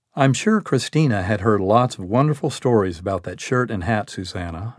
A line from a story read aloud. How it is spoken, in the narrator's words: said